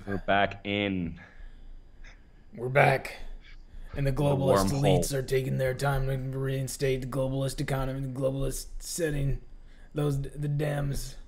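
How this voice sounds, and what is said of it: Imitates another person's voice. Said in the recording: “a really bad Alex Jones impersonation”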